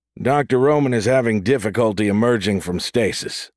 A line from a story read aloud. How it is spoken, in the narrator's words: said Bosa